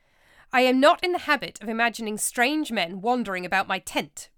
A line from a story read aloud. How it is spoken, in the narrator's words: Brutus replied crossly